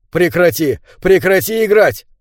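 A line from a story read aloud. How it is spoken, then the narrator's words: Shouting. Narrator (Russian): я закричал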